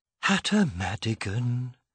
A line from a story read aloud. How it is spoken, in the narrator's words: sighed Bibwit